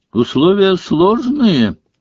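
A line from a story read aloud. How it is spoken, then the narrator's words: Cheerful announcement. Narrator (Russian): бодро объявил Маклаген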